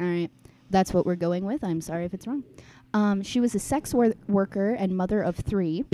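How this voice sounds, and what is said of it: Usual voice. Nothing is said of it.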